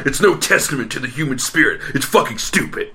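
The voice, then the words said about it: Lewis Black impression. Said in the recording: “Lewis Black had a bit about that ... That's a great impression.”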